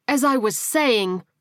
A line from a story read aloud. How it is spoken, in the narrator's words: she growled, and her voice rose